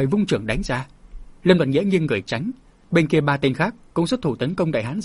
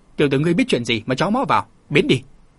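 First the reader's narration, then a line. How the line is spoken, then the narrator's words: Angry shout. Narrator (Vietnamese): Một tên vừa quay lại đã đứng trước mặt chàng trợn mắt quát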